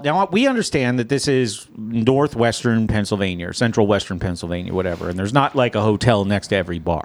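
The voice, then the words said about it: Slips into a Southern accent. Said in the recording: “Why do you have an accent when you say that? ... Your accent got all southern.”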